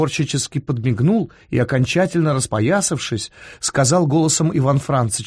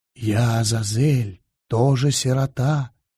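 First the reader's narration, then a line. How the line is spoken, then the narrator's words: Menacing whisper. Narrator (Russian): Страшный зашептал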